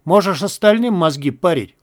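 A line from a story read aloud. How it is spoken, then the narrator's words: Snort. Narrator (Russian): фыркнул Кожа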